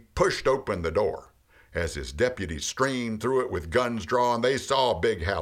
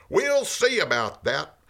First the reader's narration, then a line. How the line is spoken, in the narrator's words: The sheriff yelled out